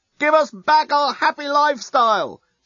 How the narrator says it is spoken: shout the Yasican demonstrators unintelligibly to the Blerontinian onlookers

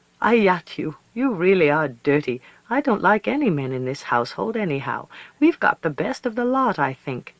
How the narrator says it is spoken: she laughed and said

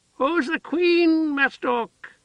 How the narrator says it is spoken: Heather cried

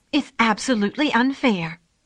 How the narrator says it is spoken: the thrush cried

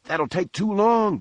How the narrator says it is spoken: Benson cried

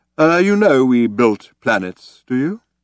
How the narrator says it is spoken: he asked solemnly

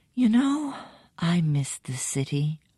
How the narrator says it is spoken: your wife sighs and murmurs

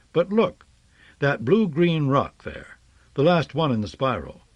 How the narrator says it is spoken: said earnestly

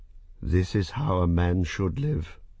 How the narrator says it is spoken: and sighed

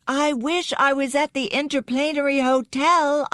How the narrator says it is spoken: shouted, puny cry annihilated by the clamor and din

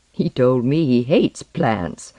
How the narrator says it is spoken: Alaru said with a giggle

